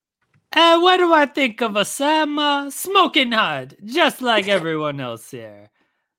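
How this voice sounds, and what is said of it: Put-on French Italian accent. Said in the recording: “my French Italian accent ... A French Italian accent.”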